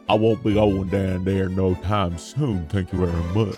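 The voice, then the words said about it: Poor attempt at Southern accent. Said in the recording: “I've never heard Satan attempt a southern accent before, and now I know it was for good reason.”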